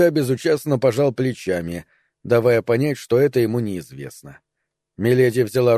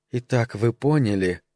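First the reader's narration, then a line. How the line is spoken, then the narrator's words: Loud whisper. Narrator (Russian): громким шепотом заговорила Миледи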